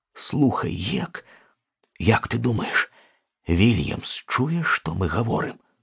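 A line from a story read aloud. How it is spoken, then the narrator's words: Whisper. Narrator (Belarusian): Потым Том шапнуў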